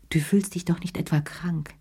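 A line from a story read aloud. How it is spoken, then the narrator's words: Plain question. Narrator (German): fragte sie ihn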